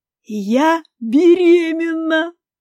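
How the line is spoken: Interrupting, ringing laughter. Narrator (Russian): прервала она меня и громко заливисто засмеялась

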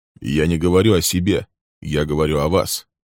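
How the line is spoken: Calm male voice. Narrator (Russian): спокойно продолжал он

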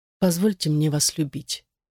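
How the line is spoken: Very quiet. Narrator (Russian): Она очень тихо сказала

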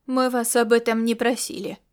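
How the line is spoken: Cold reply. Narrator (Russian): холодно ответила Ирида

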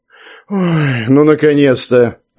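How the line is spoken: Relieved, satisfied exhale. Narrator (Russian): Облегченно выдохнул Ковалев и, не скрывая удовлетворения, произнес

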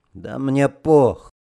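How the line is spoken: Sullen mutter. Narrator (Russian): Угрюмо буркнул Арестов

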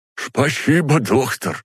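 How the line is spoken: Lisping. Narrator (Russian): прошепелявил он

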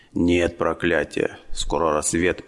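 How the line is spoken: Hoarse chief. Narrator (Russian): прохрипел вождь

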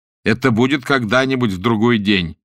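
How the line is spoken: Angry laughing reply. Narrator (Russian): ответил я и засмеялся от гневного сердца

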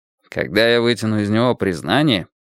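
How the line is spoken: Gloomy grumble. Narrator (Russian): мрачно пробурчал Мейсон

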